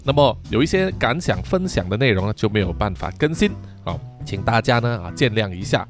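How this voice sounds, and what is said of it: Malaysian Chinese accent, unclear articulation. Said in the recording (Chinese): “叔叔的马来西亚中文口音咬字有点不清楚啊，在听的时候有点吃力”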